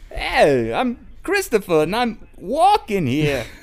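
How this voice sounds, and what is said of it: Bad Christopher Walken impression. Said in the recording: “Christopher Walken imitation ... That was fucking horrible ... that was really bad. That was really, really bad.”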